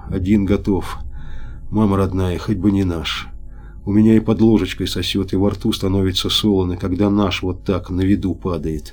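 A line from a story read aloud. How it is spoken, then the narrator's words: Frightened whisper. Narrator (Russian): Капотовский вдруг заметно побледнел, сказал шепотом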